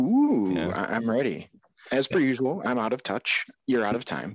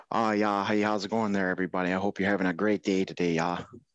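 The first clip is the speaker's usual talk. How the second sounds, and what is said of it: Put-on Minnesotan accent. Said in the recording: “we're going to do this in a Minnesotan accent?”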